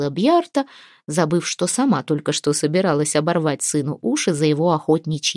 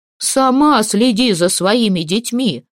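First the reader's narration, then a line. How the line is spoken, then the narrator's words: Shouting. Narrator (Russian): кричал Ульмат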